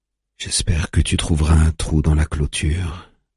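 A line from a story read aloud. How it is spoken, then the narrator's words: Whisper. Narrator (French): chuchote-t-il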